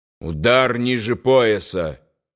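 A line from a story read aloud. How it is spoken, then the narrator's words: Angry. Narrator (Russian): сердито сказал Рудольф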